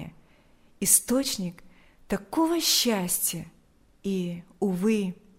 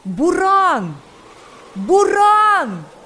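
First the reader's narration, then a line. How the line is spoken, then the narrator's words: Several frantic screaming voices. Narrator (Russian): Истошно закричали несколько голосов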